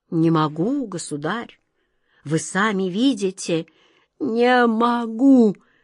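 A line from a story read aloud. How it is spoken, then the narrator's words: Exhausted groan. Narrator (Russian): В изнеможении простонал Каргор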